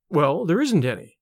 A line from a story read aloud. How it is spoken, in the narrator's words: said Carter, quickly